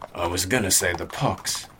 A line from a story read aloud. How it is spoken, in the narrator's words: the sergeant mutter